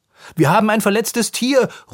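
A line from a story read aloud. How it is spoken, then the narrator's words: Calling out. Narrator (German): ruft Anton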